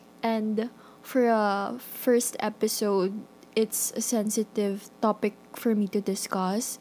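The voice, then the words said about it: Nervous-sounding voice. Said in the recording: “As you can tell in my voice, I'm really nervous to do this”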